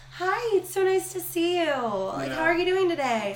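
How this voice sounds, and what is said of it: Bright customer-service voice. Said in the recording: “I tinge my tone ... server voice ... My customer service.”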